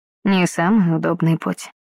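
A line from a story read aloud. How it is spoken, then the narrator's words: Quiet. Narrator (Russian): негромко произнес Красолов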